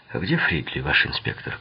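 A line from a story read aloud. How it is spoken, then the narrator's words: Quiet question. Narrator (Russian): он тихо спросил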